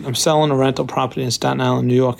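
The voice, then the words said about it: New York accent. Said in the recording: “I know you'll never guess that he's from New York from this accent.”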